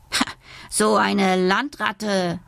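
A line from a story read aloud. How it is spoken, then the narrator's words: Sailor hissing contemptuously. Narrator (German): zischt ein Matrose verächtlich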